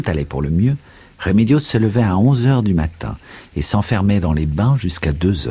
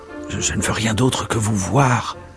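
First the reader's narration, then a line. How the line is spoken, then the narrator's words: Stranger murmuring. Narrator (French): murmura l'étranger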